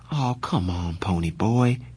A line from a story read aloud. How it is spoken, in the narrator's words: he pleaded